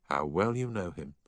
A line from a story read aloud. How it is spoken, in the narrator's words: said the schoolmaster with a sigh